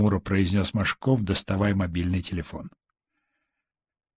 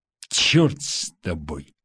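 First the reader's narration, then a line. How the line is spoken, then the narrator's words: Angry. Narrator (Russian): зло произнес Машков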